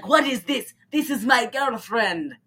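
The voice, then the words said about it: Jumbled Slavic-sounding imitated accent. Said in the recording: “This is becoming less and less Tommy Wiseau accent, and we're just jumbled Slavic garbage.”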